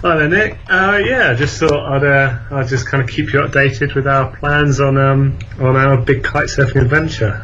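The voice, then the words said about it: Noticeable regional accent. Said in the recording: “People might be a little bit distracted by your accent there.”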